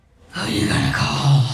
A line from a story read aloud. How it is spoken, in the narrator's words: I whispered